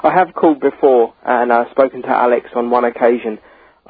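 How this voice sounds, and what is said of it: English accent. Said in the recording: “You must be from England. I hear that accent.”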